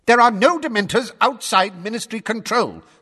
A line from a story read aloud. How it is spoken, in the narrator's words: snapped Fudge, who had turned brick red